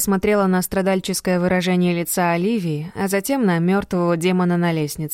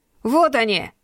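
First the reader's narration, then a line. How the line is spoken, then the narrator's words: Shout. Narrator (Russian): закричал Марк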